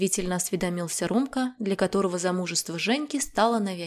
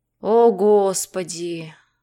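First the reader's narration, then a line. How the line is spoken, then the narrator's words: Moaning. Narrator (Russian): простонал муж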